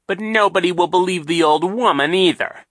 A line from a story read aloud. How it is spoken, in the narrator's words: Captain Sham said impatiently